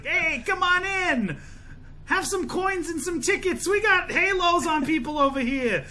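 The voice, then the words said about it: Chuck E. Cheese style voice. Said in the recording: “a Chuck E. Cheese accent ... What fucking accent was that he was doing?”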